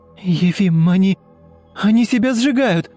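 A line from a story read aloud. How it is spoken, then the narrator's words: Shout. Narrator (Russian): крикнула Ульяна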